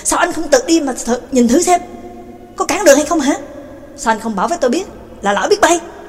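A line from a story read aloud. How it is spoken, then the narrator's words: Furious angry voice. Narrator (Vietnamese): Xoa cũng cáu tiết, giận dữ quá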